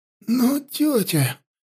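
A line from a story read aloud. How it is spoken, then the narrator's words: Strained hoarse rasp. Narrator (Russian): прохрипела Янди, пытаясь встать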